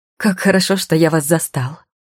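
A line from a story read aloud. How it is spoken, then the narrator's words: Exclaiming, then choking. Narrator (Russian): воскликнул он и поперхнулся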